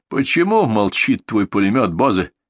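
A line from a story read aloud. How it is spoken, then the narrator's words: Angry question. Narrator (Russian): сердито спросил генерал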